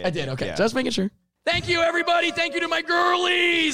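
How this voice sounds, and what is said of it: Hoarse, strained voice. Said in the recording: “you can tell that my voice is shot because I haven't been able to get to that level tonight”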